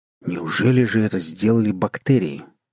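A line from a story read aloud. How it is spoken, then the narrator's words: Exclamation. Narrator (Russian): воскликнул Барри Брент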